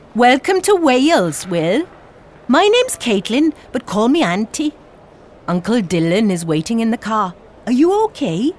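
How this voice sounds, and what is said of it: Welsh accent. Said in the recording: “people here have got a Welsh accent”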